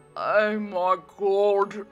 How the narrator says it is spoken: Mary exclaimed with a mouthful of food

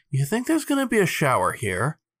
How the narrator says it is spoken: Miles sighed through his nose

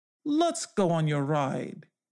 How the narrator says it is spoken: he said

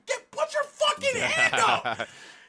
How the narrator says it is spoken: Goku was like screaming at Vegeta, like

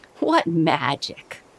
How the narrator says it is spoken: Uncle laughed

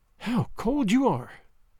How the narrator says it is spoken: sighed

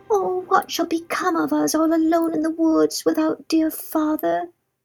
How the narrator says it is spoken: Gretel cried bitter tears and said to Hansel

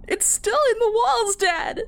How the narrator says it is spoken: I wailed

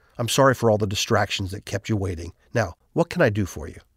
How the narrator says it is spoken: he composes himself, quietly walks over to where we're standing, and says

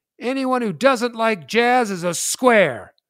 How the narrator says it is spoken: I yell out

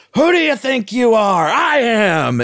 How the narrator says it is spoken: gets so fired up and he's screaming

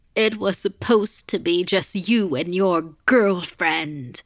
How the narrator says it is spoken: the woman shrieked

